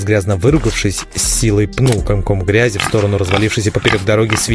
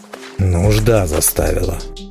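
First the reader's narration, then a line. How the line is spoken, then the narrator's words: Grim, through teeth. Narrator (Russian): мрачно процедил Велим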